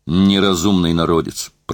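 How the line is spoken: Grumbling. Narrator (Russian): проворчал он

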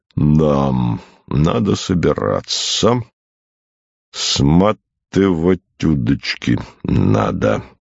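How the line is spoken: Gloomy bass, repeated. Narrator (Russian): повторил несколько раз угрюмым басом

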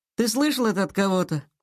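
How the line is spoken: Sighing. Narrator (Russian): Сашка вздохнул

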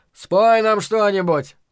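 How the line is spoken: Shouted, bartender. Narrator (Russian): крикнул бармен

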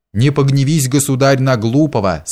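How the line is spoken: Plain. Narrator (Russian): сказал он

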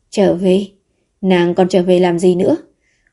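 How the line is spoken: Sighing. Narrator (Vietnamese): Vũ Thụy An thở dài một tiếng

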